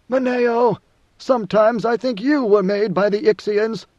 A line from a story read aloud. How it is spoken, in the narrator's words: the God Emperor had cried out to his major domo